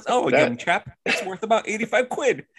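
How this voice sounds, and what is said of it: Put-on British accent. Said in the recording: “usually has a British accent, dude”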